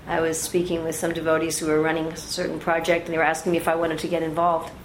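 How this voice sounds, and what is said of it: American New York accent. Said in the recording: “as you can hear from my accent, an American. And not only an American, I'm from New York.”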